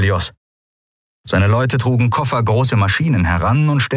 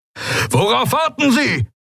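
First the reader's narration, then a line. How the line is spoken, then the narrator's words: Roaring. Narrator (German): brüllte Telios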